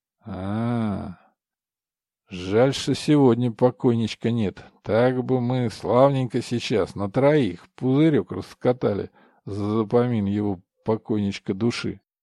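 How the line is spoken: Gloomy. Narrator (Russian): мрачно сказал Валера

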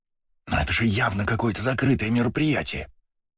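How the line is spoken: Hissed. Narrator (Russian): прошипел Жан

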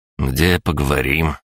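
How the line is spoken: Tense question. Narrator (Russian): Александр напряженным голосом спросил

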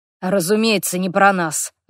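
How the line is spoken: Sigh. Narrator (Russian): вздохнул Хорвик

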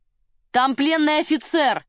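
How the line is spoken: Shouting after them. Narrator (Russian): крикнул им вслед волонтер

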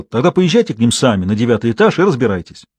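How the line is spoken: Indignant. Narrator (Russian): портье возмущенно сказал

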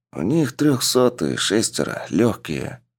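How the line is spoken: Whispered. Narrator (Russian): прошептал Андрей

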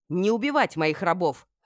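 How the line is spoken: Bark. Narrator (Russian): рявкнула

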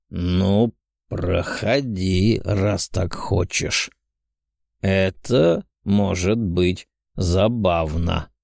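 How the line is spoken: Sudden growl. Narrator (Russian): огненный совершенно неожиданно прорычал

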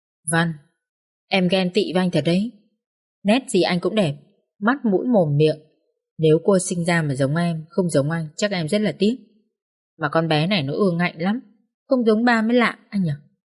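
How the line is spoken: Soft, quiet. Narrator (Vietnamese): khẽ nói

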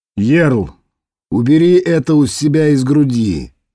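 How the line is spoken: Calm deep bass. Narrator (Russian): спокойно басил Клес

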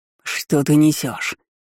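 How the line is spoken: Growl. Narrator (Russian): Рыкнул

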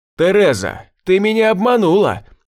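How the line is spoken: Shout. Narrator (Russian): крикнул я

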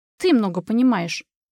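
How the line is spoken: Snorting. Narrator (Russian): фыркнула Юля

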